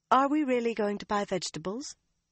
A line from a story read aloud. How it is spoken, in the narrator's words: her tone light